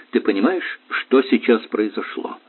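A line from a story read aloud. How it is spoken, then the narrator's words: Thoughtful question. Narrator (Russian): задумчиво спросил он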